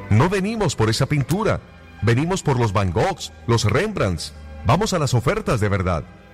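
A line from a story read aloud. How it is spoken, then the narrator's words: Angry shout. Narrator (Spanish): Otra voz gritó con enojo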